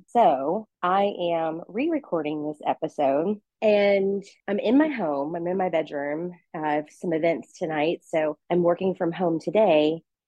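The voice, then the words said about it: Slightly out of breath. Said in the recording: “I'm a little bit out of breath because I just went on this 30 minute recorded walk.”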